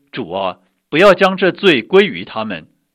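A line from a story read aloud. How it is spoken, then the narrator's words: Loud cry. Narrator (Chinese): 大声喊着说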